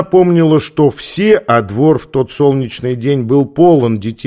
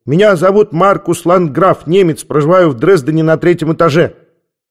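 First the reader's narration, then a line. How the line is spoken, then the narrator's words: Child barking loudly. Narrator (Russian): Маленький Маркус гаркнул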